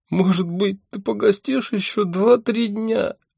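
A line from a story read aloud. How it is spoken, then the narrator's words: Tearful question. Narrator (Russian): сквозь слезы спрашивала она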